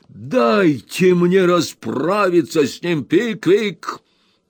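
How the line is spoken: Shouting. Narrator (Russian): закричал мистер Уордль

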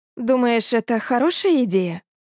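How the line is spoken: Uncertain question. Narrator (Russian): неуверенно спросила она

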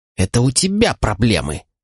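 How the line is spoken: Hissing. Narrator (Russian): прошипел он

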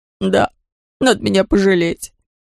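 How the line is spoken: Whining. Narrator (Russian): продолжал скулить Лабан

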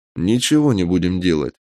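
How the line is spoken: Calm reply. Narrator (Russian): спокойно ответил я

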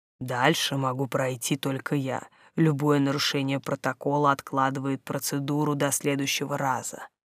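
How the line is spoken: Father speaking quietly. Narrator (Russian): Отец сказал негромко

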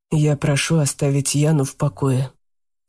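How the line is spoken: Calm. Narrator (Russian): спокойно сказал Марк

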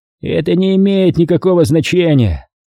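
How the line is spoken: Creaky voice. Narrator (Russian): сказал Стейнджер скрипучим голосом

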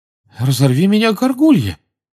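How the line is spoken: Amazed exclamation. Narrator (Russian): изумленно воскликнул мистер Уизли

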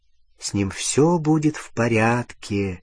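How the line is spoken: Quiet. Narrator (Russian): тихо сказала Джинни

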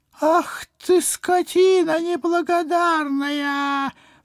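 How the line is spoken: Pained howl. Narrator (Russian): взвыл гражданин Груздев, тряся поцарапанной кистью

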